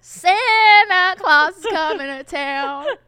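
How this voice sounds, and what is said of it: Singing in an American accent. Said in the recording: “we sing in an American accent”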